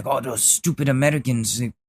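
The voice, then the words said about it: Weak put-on Asian accent. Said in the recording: “that wasn't a good Asian accent. I should be better at that”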